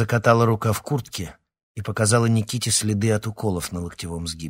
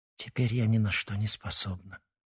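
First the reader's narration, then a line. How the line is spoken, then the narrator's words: Sad. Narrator (Russian): печально сказала Ксения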